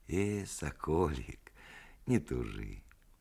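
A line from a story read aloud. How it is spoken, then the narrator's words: Tender singsong, like old peasant woman. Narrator (Russian): сказал он с той нежно певучей лаской, с которой говорят старые русские бабы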